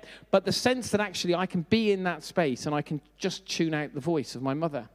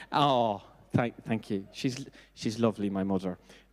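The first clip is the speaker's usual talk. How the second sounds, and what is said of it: Put-on Irish accent. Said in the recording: “Now I'm doing the Irish accent.”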